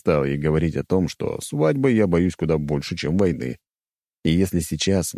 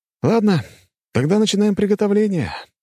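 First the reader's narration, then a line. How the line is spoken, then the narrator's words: Sighing. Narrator (Russian): вздохнул я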